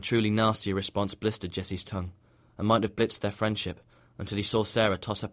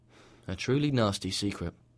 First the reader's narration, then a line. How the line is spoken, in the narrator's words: said dryly